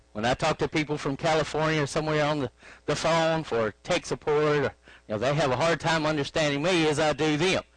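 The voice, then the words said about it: Arkansas Southern accent. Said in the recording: “You can tell I'm from Arkansas by my accent”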